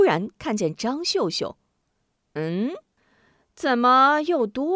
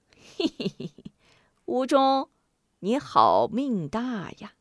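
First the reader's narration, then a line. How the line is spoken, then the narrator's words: Sinister laughter. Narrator (Chinese): 许仁一阵奸笑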